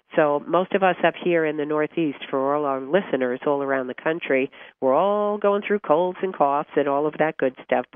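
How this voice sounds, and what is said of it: Raspy, hoarse voice. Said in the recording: “I'm a little raspy tonight”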